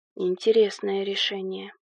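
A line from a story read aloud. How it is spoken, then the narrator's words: Thoughtful mutter. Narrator (Russian): пробормотал он, о чем-то задумавшись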